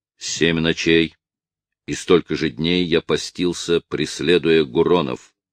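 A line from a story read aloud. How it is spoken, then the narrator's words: Cold objection. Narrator (Russian): холодно возразил Ункас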